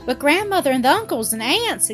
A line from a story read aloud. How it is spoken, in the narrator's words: exclaimed Dorothy, turning pale at the thought of their angry astonishment